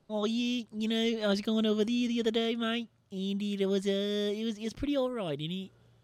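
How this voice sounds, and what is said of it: Put-on New Zealand accent. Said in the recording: “New Zealand accent is goofy as hell, man. ... I think I'm nailing it. If you're a Kiwi, shout out to you. Tell me if I did your accent well.”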